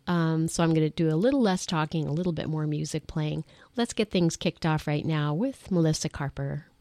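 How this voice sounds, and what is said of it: Strange-sounding voice from a cold. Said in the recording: “My voice is going to sound a little bit strange because I'm still getting over a little bit of a summer cold”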